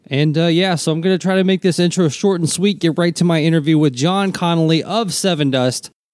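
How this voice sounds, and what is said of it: Congested, stuffy-sounding voice. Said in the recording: “as you can tell by my voice, it is allergy season”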